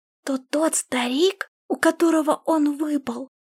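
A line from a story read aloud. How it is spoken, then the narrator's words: Whispering. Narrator (Russian): прошептала Сяо Линь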